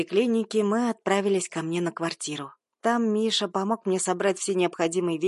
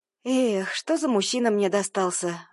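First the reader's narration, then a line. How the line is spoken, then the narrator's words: Mock-sad sigh. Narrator (Russian): Вздохнула наигранно, огорченно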